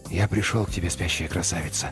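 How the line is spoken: Whisper. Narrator (Russian): прошептал он

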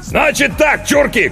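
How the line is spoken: Shouted. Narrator (Russian): крикнул

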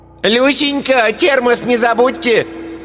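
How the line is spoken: Shout from receding distance. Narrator (Russian): крикнула удаляющаяся вслед за мужем Ираида Павловна

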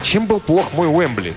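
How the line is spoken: Plain question. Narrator (Russian): спросил Крис

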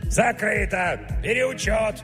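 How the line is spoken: Yelling from behind. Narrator (Russian): орал сзади Митрич

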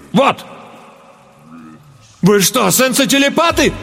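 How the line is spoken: Horrified exclamation. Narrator (Russian): С ужасом воскликнул я

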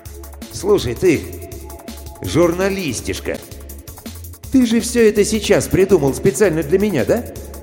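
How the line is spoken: Yelling in someone's face. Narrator (Russian): заорал в лицо

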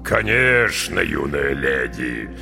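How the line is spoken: Deep bass. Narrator (Russian): густым басом подтвердил капитан

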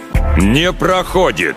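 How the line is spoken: Booming voice. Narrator (Russian): прогремел он

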